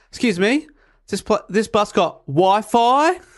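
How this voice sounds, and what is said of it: Exaggerated broad Australian accent. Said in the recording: “you do hear the Australian accent”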